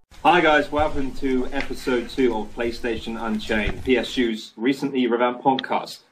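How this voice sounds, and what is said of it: British accent. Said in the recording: “talking to me with a British accent”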